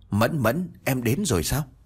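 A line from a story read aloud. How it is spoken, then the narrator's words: Choked-up stammer. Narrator (Vietnamese): Nghìn vạn lần muốn nói tắc nghẹn lại trong ngực của Trang Mộc Cường Ba, chỉ lắp bắp nói ra được một câu đó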